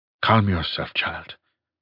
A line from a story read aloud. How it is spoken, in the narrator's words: he said softly